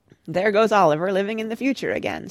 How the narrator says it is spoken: said Father, laughing

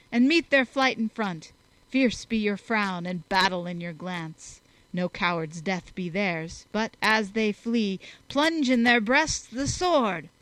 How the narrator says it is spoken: he cried

